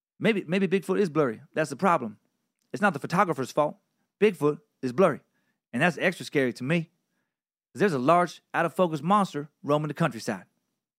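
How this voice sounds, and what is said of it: Imitates another person's voice. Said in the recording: “That was the best Hedberg impression I could muster up.”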